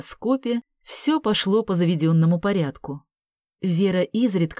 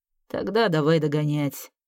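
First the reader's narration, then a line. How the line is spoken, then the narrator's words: Muttered. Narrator (Russian): пробормотал он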